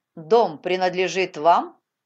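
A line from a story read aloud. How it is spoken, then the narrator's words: Rude question. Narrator (Russian): он грубо спросил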